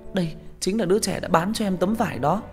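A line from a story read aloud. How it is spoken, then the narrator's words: Exclaiming. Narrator (Vietnamese): Thi Thi kêu lên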